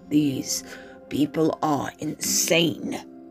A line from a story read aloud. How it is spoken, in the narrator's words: the Emperor snarled